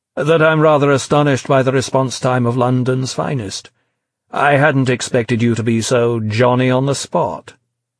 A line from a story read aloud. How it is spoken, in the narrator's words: V declared